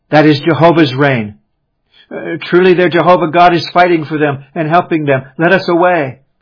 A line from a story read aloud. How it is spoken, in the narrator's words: several, terror-struck, exclaimed